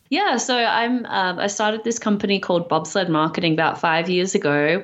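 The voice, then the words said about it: Slightly Australian accent, American-tinged. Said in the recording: “you sound slightly Australian ... Slightly Australian, yes ... a New York slash Australian accent ... my family thinks I sound slightly American. And of course, no one in the States thinks I sound American.”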